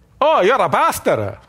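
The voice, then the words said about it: Put-on Italian accent. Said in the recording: “the Italian guy ... he really did have that accent. I'm not kidding.”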